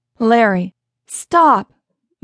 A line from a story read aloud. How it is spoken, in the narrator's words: Madeline said firmly